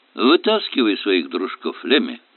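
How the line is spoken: Plain. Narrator (Russian): сказал я

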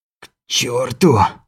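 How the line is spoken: Breathless, straining exhale. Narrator (Russian): выдохнул, пытаясь приподняться на четвереньки

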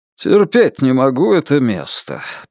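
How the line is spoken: Grumbled. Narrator (Russian): пробурчал утес

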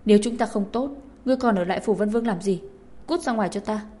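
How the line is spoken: Loud shout. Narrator (Vietnamese): hét ầm lên

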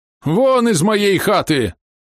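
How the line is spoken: Old man shouting. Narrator (Russian): закричал дед Андрей

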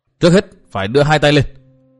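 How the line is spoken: Sudden loud shout. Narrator (Vietnamese): Bất giác Dương Văn Nghiêu hét to

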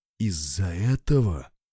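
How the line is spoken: Horrified whisper. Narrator (Russian): в ужасе прошептал отец Варфоломей

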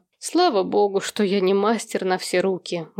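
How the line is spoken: Sigh. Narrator (Russian): вздохнул Берт

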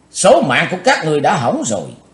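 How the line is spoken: Shout. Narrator (Vietnamese): Cùng theo tiếng quát, Chí Tôn

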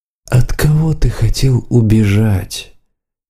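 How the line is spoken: Soft question. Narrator (Russian): мягко спросил Лериалу Рун

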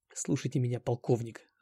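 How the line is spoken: Whispering from behind. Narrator (Russian): зашептал я Довгому со спины

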